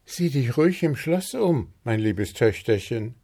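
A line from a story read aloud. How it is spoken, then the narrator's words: Called out by queen. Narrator (German): rief Königin Luzi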